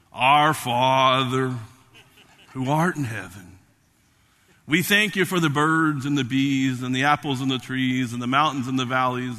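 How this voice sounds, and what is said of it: Special put-on prayer voice. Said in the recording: “put on a special voice”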